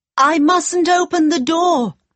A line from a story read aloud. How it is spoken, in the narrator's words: cried